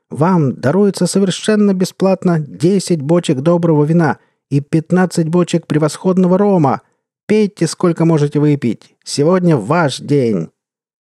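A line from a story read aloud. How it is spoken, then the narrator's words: Screaming. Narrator (Russian): вопила Изабелла Дронсон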